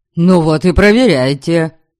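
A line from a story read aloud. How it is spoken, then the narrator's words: Snapping. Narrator (Russian): огрызнулся Дориан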